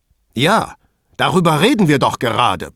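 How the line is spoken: Vehement blustering. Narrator (German): polterte Pater mit gewohnter Heftigkeit

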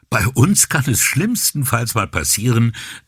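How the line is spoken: Laughing. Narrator (German): sagte Brunetti lachend

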